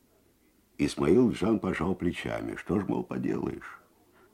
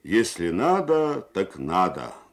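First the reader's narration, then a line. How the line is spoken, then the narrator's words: Loud, carrying. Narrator (Russian): громко на всю мастерскую сказал Махкам Ака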